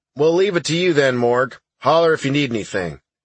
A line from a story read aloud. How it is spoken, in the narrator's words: Sarge said